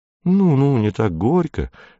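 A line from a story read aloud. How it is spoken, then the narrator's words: Smooth, insinuating. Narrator (Russian): вкрадчиво сказал он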